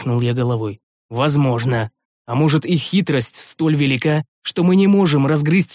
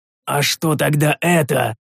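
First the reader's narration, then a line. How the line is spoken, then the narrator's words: Growl. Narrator (Russian): рыкнул я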